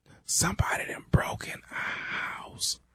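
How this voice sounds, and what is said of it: Quiet whispered speech. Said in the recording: “Man, speak up. I can't hear you. ... why in the hell are you whispering?”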